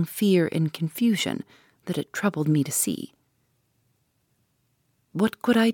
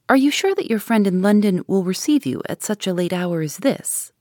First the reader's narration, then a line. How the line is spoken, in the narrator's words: I said